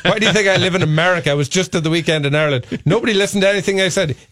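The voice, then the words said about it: Irish accent. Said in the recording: “I have a cute accent, so I can get away with it ... In America, your accent stands out”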